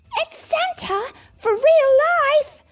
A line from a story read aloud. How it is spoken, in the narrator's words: cried Bluey with a cheer